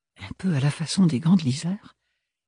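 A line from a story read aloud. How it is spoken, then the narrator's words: Murmuring. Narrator (French): murmura Ophélie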